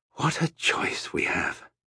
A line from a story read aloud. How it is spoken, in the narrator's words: he said quietly